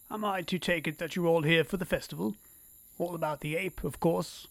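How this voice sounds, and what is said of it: Oxford-educated British accent. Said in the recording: “with an Oxford-educated accent that catches us all by surprise”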